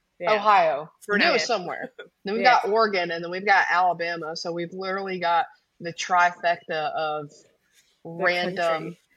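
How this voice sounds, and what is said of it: Southern American accent. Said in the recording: “my southern accent ... I sound like buttermilk soaked cornbread”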